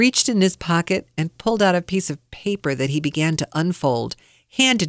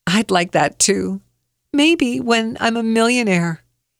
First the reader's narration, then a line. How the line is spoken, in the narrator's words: chuckled and said